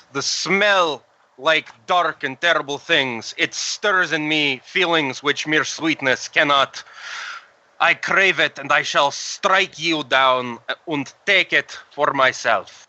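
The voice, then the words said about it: Strange put-on accent. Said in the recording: “My accent has become strange.”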